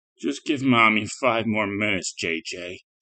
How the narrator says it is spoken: muttered

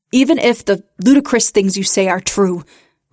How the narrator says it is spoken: barked

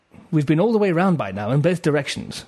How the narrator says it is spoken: said Trevor

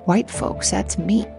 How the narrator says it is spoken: Newt Lee quietly mutter

